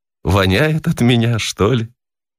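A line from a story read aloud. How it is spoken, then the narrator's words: Said thoughtfully, amused surprise. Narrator (Russian): Весело удивляясь по поводу своих сбежавших мужей, она задумчиво проговорила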